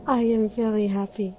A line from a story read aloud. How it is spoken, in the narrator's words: she sighed